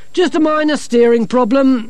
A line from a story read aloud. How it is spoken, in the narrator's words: Masklin called down cheerfully